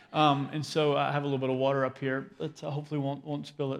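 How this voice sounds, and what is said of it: Voice affected by a cold. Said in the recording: “I've had a little bit of a cold the last couple of days, and so if my voice cuts out ... I have a cold.”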